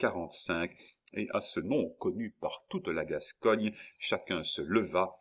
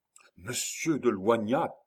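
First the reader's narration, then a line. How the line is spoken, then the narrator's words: Many voices exclaiming. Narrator (French): s'écrièrent une vingtaine de voix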